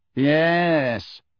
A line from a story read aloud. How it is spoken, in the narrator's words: came Malfoy's clear drawl from the group nearest them